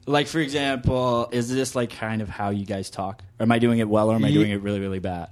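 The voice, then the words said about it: Put-on American accent. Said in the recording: “How is your American accent? ... Am I going to do one?”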